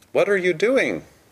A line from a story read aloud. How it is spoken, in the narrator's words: cried Mr